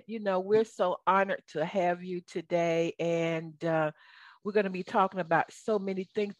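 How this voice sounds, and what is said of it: Southern American accent. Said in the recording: “this is my Southern accent.”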